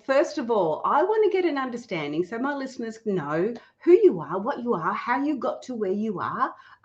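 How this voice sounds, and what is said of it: Australian accent. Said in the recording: “Nice hearing an Australian accent too.”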